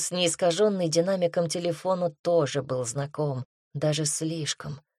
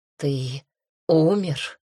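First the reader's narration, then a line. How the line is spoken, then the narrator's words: Hoarse, exhausted. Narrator (Russian): хрипло выдавила она из последних сил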